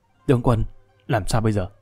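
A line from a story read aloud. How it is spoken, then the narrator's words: Soft whispered question. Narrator (Vietnamese): Hồ Bất Quy thì thào hỏi khẽ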